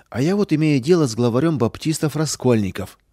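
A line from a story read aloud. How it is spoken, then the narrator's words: Sighing. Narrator (Russian): вздохнул прокурор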